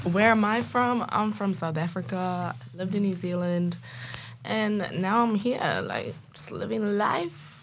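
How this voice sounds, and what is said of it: Mixed South African and antipodean accent. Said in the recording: “I'm picking a little bit of a colored accent... My accent's all over the shop. I'll sound a little bit American, I'll sound a little bit Kiwi, a little bit Australian, South African.”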